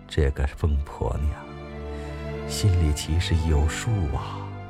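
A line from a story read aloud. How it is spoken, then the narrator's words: Grandmother murmuring. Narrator (Chinese): 奶奶嘴里喃喃的说道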